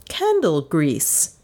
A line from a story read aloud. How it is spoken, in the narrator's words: she said sharply